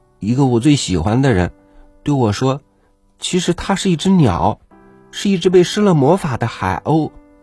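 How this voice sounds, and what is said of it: Quiet, soft-spoken voice. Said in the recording (Chinese): “少女小声的说”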